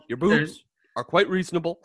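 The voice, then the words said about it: Imitates another person's voice. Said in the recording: “Why are you Barack Obama now?”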